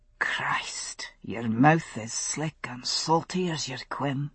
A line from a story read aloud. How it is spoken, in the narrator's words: he muttered